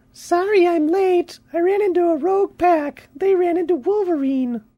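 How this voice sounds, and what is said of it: Silly comedic funny voice. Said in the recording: “Do a funny voice. ... Okay, that was the funny voice.”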